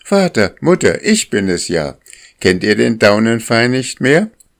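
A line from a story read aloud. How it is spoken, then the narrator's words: Calling out. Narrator (German): rief sie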